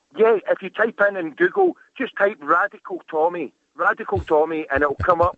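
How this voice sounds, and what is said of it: Thick UK accent. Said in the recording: “from the UK ... That is a thick, thick accent ... you can't really understand every word ... the stuff that runs together and it's a blur”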